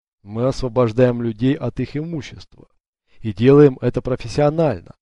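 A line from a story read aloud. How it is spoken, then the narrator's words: Plain. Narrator (Russian): ответил Уго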